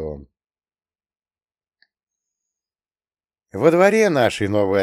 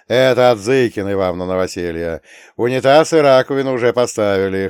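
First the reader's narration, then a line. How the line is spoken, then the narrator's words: Chuckling field spirit. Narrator (Russian): хохотнул полевой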